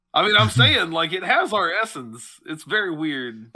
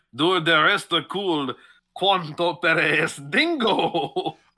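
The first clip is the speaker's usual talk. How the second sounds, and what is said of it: Put-on Spanish accent. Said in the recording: “he keeps doing it in a Spanish accent”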